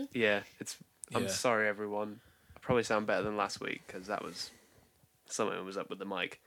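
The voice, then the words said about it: Croaky, sick-sounding voice. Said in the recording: “how croaky your voice is sounding. ... my voice is just bad”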